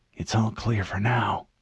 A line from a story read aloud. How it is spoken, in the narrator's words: he whispered